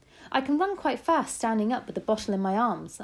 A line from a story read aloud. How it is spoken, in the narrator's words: I said